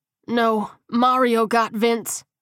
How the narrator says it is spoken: grunted

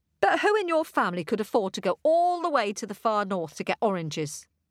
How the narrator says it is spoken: asked Rosa

